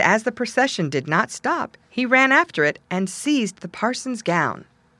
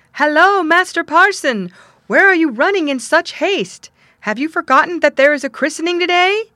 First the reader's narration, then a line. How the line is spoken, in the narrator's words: he wondered greatly and cried out